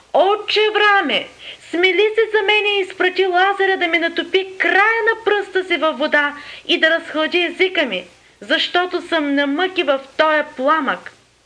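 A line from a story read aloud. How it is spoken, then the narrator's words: Crying out. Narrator (Bulgarian): извика, казвайки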